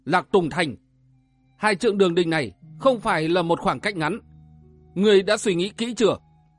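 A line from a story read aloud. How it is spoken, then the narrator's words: Raised voice. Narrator (Vietnamese): gã võ sinh cao giọng nói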